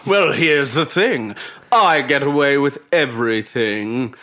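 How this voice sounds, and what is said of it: Evil villain character voice. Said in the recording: “what was King Skrull's accent? ... Just evil villain.”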